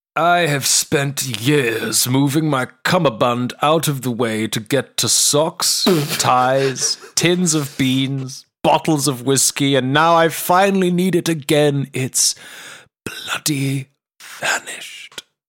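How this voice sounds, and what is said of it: Puts on a character voice. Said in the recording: “I'm going to give him a voice.”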